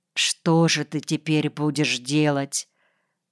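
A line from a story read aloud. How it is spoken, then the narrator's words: Quiet question. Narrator (Russian): Наташа спросила тихо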